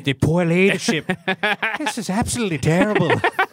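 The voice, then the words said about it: Imitates another person's voice. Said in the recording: “your best Roy Keane impersonation.”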